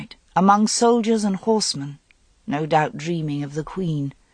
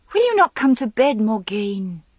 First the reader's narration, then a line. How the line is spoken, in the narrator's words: Elaine said impatiently